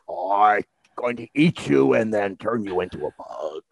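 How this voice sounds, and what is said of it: Movie villain character voice. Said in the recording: “do that voice ... that was such good, a good yeah. impression ... he makes the sound”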